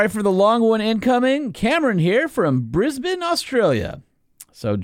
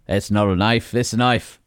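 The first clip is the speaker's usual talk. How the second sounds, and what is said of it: Put-on Australian accent. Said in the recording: “should I do an Australian voice? ... You should do an Australian voice”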